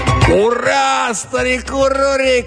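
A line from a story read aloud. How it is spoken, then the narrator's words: Shouting. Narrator (Russian): крикнул кто-то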